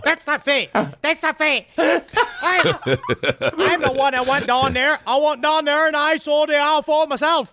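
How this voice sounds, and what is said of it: Strange accent, possibly Boston. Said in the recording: “That's how he sounds. It's a very strange accent. ... Maybe he's Massachusetts. Perhaps he's a Bostonian.”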